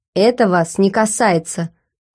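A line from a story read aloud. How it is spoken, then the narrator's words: Cold curt man. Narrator (Russian): холодно отрезал мужчина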